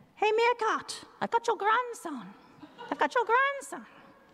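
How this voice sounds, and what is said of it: Attempted English accent. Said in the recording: “That's my attempt at an English accent.”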